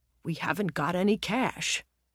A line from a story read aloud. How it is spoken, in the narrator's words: a middle-aged man, Roger, muttered sullenly